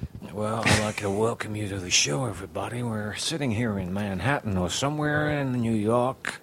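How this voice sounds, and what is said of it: Put-on American accent, slightly Southern. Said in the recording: “can you do an American accent? ... you did a little Southern accent, too ... It was a little Southern ... a little Jack Nicholson in there”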